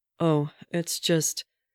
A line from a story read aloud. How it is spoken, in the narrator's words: Steve said awkwardly